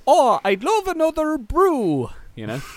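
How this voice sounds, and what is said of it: Good put-on Irish accent. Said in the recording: “you do quite a good Irish accent.”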